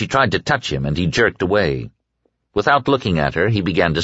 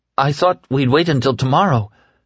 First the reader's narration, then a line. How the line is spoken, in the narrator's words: she began timidly